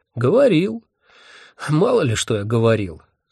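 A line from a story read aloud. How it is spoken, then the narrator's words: Sighing. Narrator (Russian): вздохнул Вурундшундба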